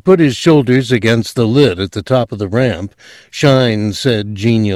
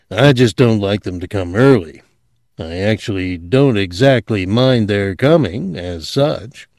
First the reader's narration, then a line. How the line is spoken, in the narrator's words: Todd said sullenly